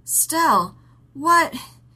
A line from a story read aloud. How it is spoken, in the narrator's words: He gasped